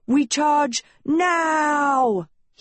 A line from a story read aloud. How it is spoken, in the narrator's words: he cried